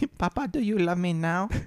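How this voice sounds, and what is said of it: Put-on accent. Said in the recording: “I don't know why I did that accent”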